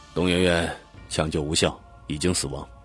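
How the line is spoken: Soft male voice. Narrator (Chinese): 一个男警察轻声的对他们说

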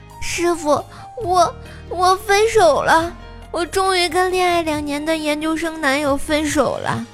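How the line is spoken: Crying. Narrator (Chinese): 胖胖那天哭着跟我说

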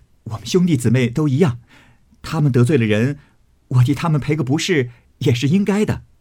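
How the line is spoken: Laughing. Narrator (Chinese): 宝玉笑道

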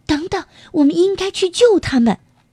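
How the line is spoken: Crying out. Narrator (Chinese): 伊莎贝尔叫了起来

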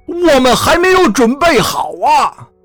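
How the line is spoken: Hoarse, desperate shout. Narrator (Chinese): 提波斯声嘶力竭地喊道

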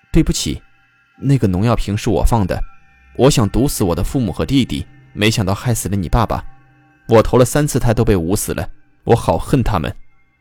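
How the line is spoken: Apologetic murmur. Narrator (Chinese): 他喃喃地说

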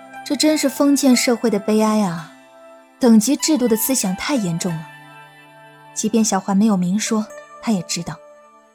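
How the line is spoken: Sighing exclamation. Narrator (Chinese): 云溪感叹了一声

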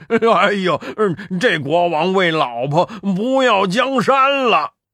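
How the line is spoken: Hearty laughter. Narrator (Chinese): 八戒哈哈大笑道

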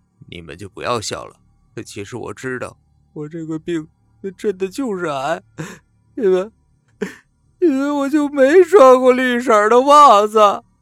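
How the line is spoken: Quiet. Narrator (Chinese): 肉丁小声的说

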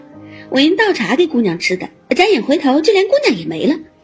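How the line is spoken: Laughing. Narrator (Chinese): 翠缕笑道

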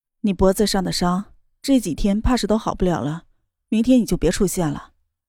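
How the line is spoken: Cool indifferent tone. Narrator (Chinese): 冷月娥淡淡的说道

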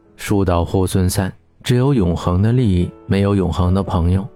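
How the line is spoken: Calm, detached. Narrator (Chinese): 蒋雅欣淡淡的说

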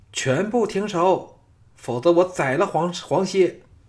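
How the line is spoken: Shrieking woman. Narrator (Chinese): 单柔的尖叫响起，说

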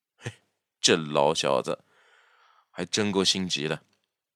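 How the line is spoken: Pensive muttering. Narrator (Chinese): 若有所思地嘟囔了一句

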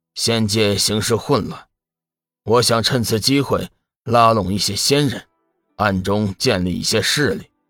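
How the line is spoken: Deep low voice. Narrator (Chinese): 中年男子沉声道

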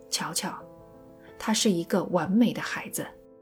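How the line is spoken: Soft gentle voice. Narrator (Chinese): 乔治亚轻声细语地说

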